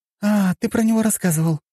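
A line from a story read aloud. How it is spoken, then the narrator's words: Exclaiming. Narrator (Russian): воскликнула она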